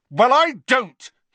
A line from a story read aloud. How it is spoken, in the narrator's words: he said as loudly as before